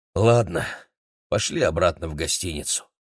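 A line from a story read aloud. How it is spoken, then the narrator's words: Tired. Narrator (Russian): устало сказал Игорь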